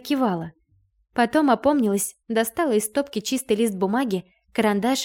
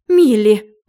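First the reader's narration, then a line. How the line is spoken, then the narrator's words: Exclamation. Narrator (Russian): воскликнула Райна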